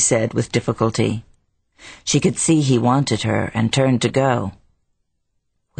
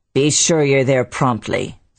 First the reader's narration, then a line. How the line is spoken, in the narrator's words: the manager said roughly